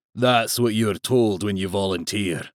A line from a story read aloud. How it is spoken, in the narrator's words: growled Schaefer